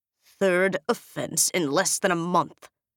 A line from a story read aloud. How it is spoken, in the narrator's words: he snaps